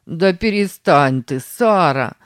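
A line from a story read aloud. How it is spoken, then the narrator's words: Laughing. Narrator (Russian): засмеялся Сэм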